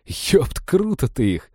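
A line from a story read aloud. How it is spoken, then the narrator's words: Sincerely respectful, after laughing. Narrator (Russian): с искренним уважением сказал Женька, отсмеявшись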